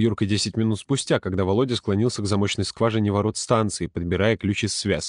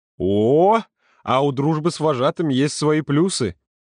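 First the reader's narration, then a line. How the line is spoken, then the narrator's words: Chuckling. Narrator (Russian): Володя хохотнул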